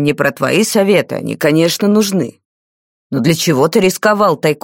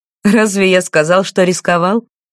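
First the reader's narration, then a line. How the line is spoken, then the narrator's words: Carefree laugh. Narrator (Russian): беззаботно засмеялся маг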